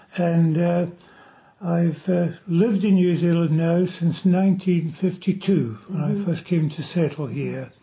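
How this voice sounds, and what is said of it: Scottish accent. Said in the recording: “you've kept a Scottish accent.”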